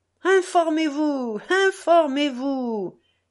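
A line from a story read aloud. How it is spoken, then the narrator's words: Kids shouting, laughing. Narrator (French): crièrent les gamins en riant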